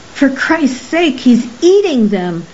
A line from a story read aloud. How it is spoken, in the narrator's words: Morano cried